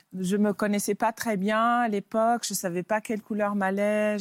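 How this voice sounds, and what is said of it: Pretty foreign accent in French. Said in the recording (French): “Vous avez un accent, hein Vous êtes anglaise ... vous avez ce joli, ce joli accent.”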